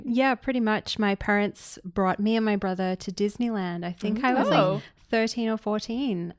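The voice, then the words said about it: Australian accent. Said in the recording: “is in town from Australia, if you cannot tell from her accent”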